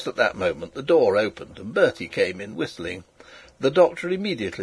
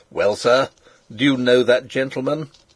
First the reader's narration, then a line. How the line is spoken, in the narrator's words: The doctor said in his harshest voice